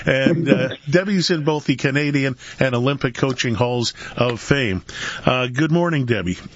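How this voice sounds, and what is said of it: Voice strained from a cold. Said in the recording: “I've got a cold. I can barely talk.”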